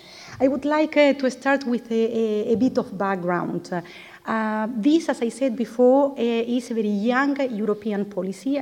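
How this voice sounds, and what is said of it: Non-native English accent. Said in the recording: “bear with my accent”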